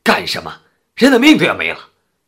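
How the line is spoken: Angry shout. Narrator (Chinese): 产妇的丈夫见玛丽这副样子，顿时火冒三丈，高声的喊道

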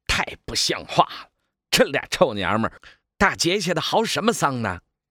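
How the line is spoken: Angry. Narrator (Chinese): 大赤包带着怒气地说

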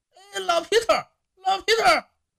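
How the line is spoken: Loud shouting. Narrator (Chinese): 狗尾巴大声的喊叫

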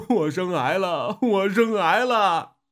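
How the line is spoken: Sobbing while speaking. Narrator (Chinese): 阿昌 呜呜地哭了起来，边哭边说

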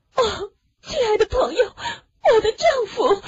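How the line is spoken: Panicked breathless pleading. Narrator (Chinese): Lucy 神情慌张，喘着气，求着他

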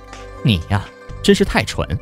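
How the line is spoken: Exasperated sighing. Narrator (Chinese): 玉果儿直叹气

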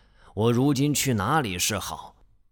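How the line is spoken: Panicked sighing musing. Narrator (Chinese): 南宫长万仓皇无忌，长叹一声，寻思着

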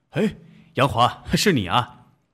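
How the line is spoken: Happy exclamation. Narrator (Chinese): 祥刚高兴地叫了起来

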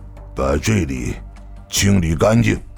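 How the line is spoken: Through gritted teeth. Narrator (Chinese): 三宅公次咬了咬牙，又道

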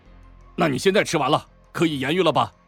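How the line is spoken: Embarrassed anger. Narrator (Chinese): 不禁脸色涨红，怒道

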